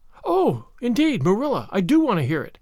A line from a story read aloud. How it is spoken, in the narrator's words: cried Anne contritely